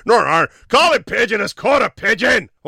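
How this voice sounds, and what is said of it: Put-on Northern Irish accent. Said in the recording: “could have done that in a Northern Ireland accent.”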